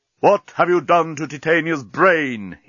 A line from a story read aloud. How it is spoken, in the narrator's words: he roared